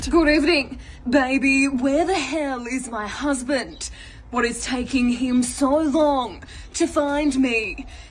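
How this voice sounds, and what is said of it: Australian newsreader-style delivery. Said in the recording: “delivering them as if they're a newsreader ... Australian accent mandatory”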